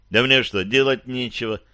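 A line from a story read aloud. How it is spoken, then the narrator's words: Scoffing snort. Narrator (Russian): хмыкнул Кирилл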